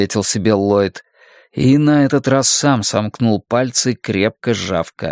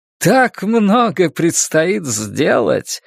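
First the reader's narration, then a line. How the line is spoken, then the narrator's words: Joyful exclamation. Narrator (Russian): радостно воскликнул Флэг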